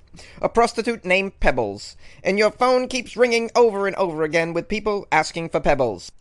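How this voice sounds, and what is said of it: Put-on accent. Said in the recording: “I don't know if I can keep this accent going, guys, but I'm trying here.”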